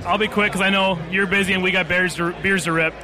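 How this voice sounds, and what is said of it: Strong Wisconsin accent. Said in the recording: “That was an authentic Wisconsin accent... it kind of turned up a couple notches for the camera”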